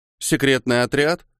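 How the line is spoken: Thoughtful. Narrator (Russian): Задумчиво предложил Мора

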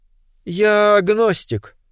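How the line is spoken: Calm reply. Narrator (Russian): спокойно ответил Вахино

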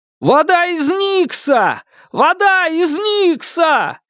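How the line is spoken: Repeated shouting from crowd. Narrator (Russian): кричал кто-то в толпе снова и снова

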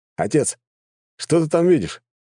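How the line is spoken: Exclaimed, older son. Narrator (Russian): воскликнул один из его старших сыновей

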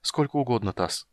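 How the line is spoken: Said sadly. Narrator (Russian): сказал он и печально улыбнулся

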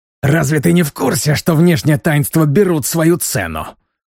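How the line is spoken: Spitting hiss. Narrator (Russian): прошипел мне в лицо, брызжа слюной

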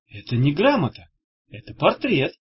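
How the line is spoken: Sudden exclamation. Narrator (Russian): внезапно воскликнула Дафф

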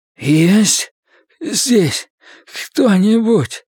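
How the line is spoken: Hoarse croak. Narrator (Russian): прохрипел мусорный бак

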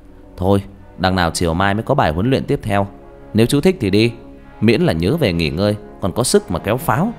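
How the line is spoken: Smiling. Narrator (Vietnamese): Việt mỉm cười

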